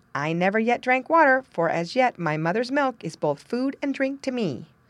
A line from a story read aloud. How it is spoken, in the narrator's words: exclaimed the lamb